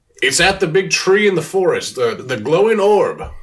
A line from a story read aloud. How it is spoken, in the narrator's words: I'm just going to yell